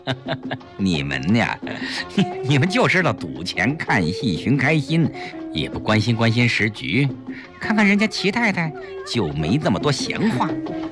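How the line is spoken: Smiling. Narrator (Chinese): 陈夫人笑笑

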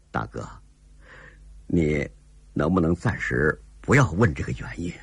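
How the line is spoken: With a slight smile. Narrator (Chinese): 寇英杰脸上带出了一丝笑意

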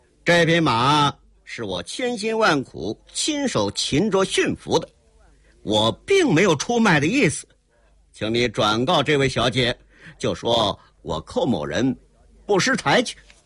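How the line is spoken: Cold sneer. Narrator (Chinese): 寇英杰冷冷一笑

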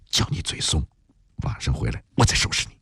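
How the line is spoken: Hushed voice. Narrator (Chinese): 毛小妹 压低嗓音说

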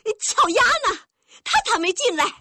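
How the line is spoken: Anxious loud shout. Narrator (Chinese): 大菜碟突然发现巧丫不在屋子里，他急了，忍不住大声喊起来

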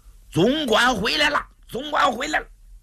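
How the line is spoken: Distant shout from outside. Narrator (Chinese): 外边有人喊

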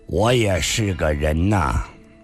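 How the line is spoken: Calm flat tone. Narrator (Chinese): 上官金虹淡淡地说道

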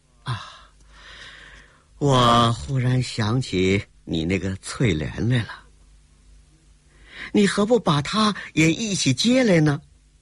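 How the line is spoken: With a smile. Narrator (Chinese): 郭彩玲微笑了一下

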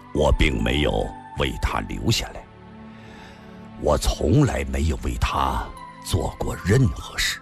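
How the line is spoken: Pained, low voice. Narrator (Chinese): 李寻欢脸上渐渐露出了痛苦之色，低声地说道

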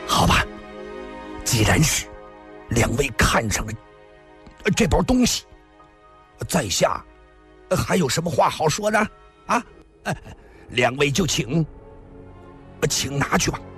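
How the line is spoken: Grudging, through gritted teeth. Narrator (Chinese): 咬了咬牙

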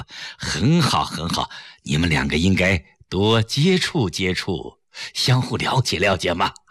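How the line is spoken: Smiling. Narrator (Chinese): 崔子昂微笑着说

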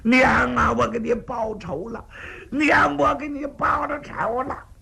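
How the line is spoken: Crying with each blow. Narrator (Chinese): 砍一剑哭一声

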